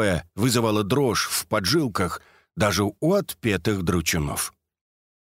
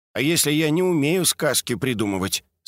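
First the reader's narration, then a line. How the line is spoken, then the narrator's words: Plain. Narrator (Russian): спросил Эдик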